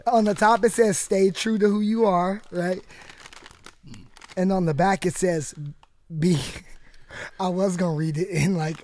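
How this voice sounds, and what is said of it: Hoarse, strained voice. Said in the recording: “my voice is shattered enough. I can't even do it.”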